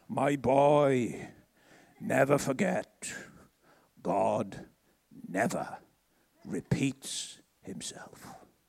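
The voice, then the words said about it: Welsh accent. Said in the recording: “he had a good Welsh accent.”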